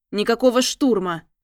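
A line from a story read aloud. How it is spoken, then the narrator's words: Barking shout. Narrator (Russian): рявкнул следопыт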